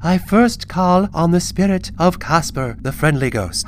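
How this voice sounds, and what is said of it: Spooky voice with English accent. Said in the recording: “Using her spookiest voice, which for some reason sounded exactly like her regular voice, only with an English accent”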